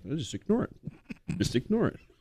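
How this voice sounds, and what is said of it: Imitates another person's voice. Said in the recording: “That was a pretty good impression.”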